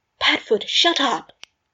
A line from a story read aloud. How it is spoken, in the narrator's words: Remus exclaimed pointedly